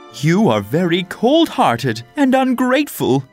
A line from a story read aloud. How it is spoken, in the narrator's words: cried